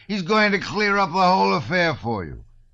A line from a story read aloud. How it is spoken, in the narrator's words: shouted the youth victoriously